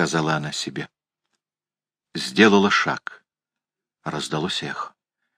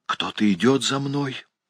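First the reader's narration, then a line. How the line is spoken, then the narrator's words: Female whisper. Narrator (Russian): шепнула она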